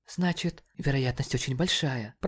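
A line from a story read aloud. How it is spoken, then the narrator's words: Whispered. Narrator (Russian): прошептала МДЖ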